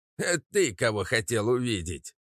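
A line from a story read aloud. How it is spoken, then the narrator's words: Question, then laughing. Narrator (Russian): спросил тот и рассмеялся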